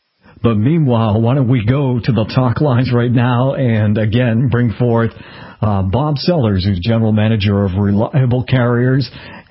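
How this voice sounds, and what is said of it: Rough, congested voice. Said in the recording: “my voice is a little bit bent today ... You don't sound like your vibrant self today ... I'm battling a little bit of a cold”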